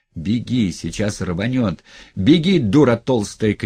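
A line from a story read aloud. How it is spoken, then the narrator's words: Driver's shout. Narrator (Russian): крикнул кто-то из шоферов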